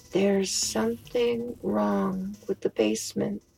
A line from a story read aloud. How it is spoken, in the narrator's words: she muttered as she slowly and calmly died